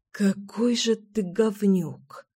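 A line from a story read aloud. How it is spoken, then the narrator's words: Hissed reply. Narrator (Russian): прошипела Мила в ответ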